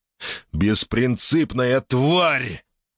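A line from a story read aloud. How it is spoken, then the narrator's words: Growled aloud. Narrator (Russian): рычал он в голос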